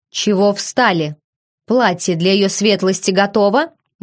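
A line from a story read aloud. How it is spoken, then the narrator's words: Menacing question. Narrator (Russian): грозно спросила Мари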